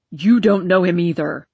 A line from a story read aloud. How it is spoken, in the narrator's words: he bellowed